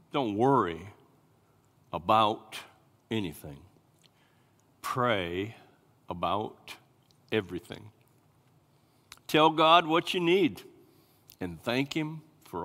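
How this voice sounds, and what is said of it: Slow, deliberate reading. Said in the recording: “I'm going to say it slowly”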